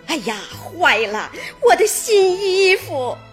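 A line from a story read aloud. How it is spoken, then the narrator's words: Anxious crying. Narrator (Chinese): 急得她直哭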